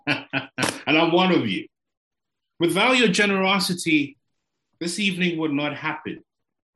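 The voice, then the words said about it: African accent. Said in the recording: “don't worry about trying to figure out my accent, I'm African.”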